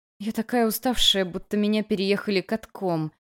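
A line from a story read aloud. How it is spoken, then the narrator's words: Groaned. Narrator (Russian): простонала я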